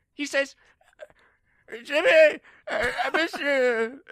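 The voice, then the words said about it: Imitates another character's voice. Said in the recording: “I'll do it at my best impression.”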